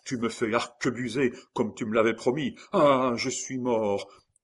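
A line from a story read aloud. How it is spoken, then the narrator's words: Prisoner crying out. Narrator (French): s'écria le prisonnier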